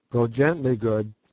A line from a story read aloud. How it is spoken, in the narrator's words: said Sir Henry